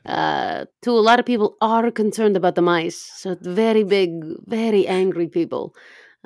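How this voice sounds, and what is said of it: Shifting mostly Russian accent. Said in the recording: “my shifting accent. ... a little bit Icelandic, a little bit German, mostly Russian”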